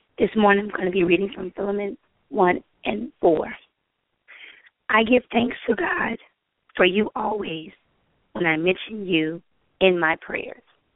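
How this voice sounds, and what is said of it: Congested voice cutting in and out. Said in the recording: “My sinuses have been a little crazy this week, so I apologize for my voice being in and out.”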